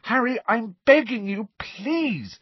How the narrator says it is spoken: said Hermione desperately

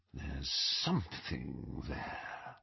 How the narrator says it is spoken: he whispered

